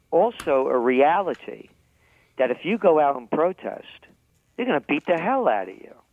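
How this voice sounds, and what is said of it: New York accent. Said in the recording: “I'm a New Yorker, in case you couldn't tell by the accent.”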